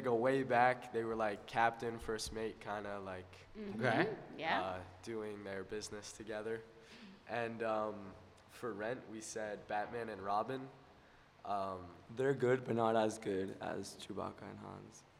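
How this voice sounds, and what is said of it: Worn-out, strained voice. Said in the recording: “My voice is like a little dead from Color War yesterday.”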